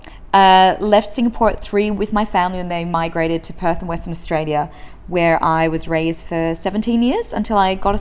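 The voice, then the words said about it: Australian-sounding accent. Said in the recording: “most people think I'm half Australian because of my accent”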